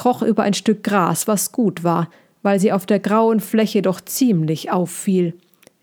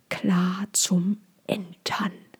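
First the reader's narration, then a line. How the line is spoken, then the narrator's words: Whispered to herself. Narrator (German): flüsterte Cassandra zu sich selbst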